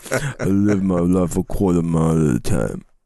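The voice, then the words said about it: Surprisingly good Vin Diesel impression. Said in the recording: “Your Vin Diesel impression is surprisingly good.”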